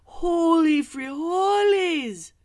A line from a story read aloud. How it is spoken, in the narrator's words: cried Skipito